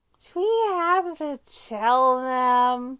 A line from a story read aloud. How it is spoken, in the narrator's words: Styles whines